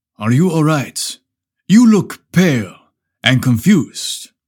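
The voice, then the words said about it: Deep hypnotic voice, hearty accent. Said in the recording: “a disarmingly handsome Italian man ... His deep, hypnotic voice, with a hearty accent”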